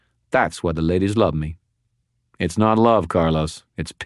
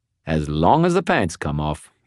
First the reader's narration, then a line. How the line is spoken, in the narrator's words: he said cheerfully